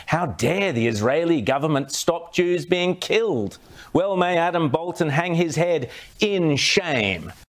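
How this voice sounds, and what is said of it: Australian-accented news presenter. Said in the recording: “with a great accent ... The Sky News in Australia”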